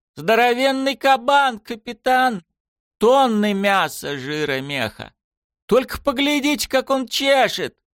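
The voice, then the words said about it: Thick regional accent, bleating voice. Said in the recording (Russian): “блеял по громкой связи голос ... Его ответ с густым акцентом острова Питман и клацаньем зубов”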